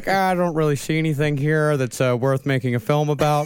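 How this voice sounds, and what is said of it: Imitates another person's voice. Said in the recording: “That impression was really good ... de-neckify it by about 80% if you just get less neck in there”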